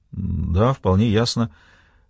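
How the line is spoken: Mumbling. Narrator (Russian): пробормотал Эндрю

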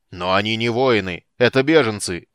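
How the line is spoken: Angry objection. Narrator (Russian): сердито возразил Флинт

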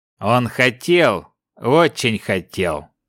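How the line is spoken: Grunt. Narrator (Russian): хмыкнул Вайс

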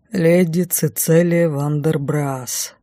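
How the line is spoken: Bored voice. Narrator (Russian): скучающим голосом сообщил

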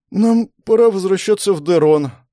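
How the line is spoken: Sleepy voice. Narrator (Russian): произнесла заспанным голосом Беатрис

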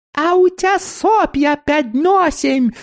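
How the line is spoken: Shrill childlike squeal. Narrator (Russian): завизжал детским голосом снеговик

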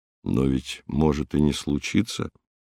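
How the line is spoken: Soft speech. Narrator (Russian): мягко проговорил Михаил Петрович

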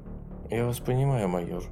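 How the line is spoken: Quiet. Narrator (Russian): сказала она тихо

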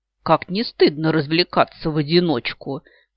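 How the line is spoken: Mocking remark. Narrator (Russian): насмешливо сказал он

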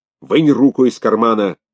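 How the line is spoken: Shouted. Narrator (Russian): крикнул он

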